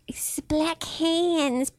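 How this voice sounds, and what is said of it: Weird put-on voice. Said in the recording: “doing that weird voice”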